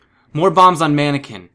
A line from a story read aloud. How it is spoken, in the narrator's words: he shouted